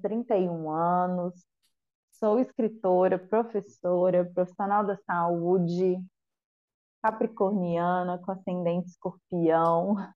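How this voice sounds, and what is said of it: Brazilian Mineiro accent. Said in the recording (Portuguese): “mineirinha, né? Já deu para ver pelo sotaque ... Acho charmoso o sotaque de mineiro.”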